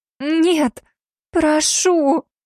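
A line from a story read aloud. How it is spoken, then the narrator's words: Shocked moan. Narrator (Russian): простонала Сильвия в шоке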